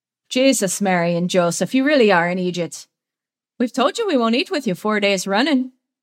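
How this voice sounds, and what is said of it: Exaggerated put-on Irish accent. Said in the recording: “His put-on Irish accent is borderline offensive.”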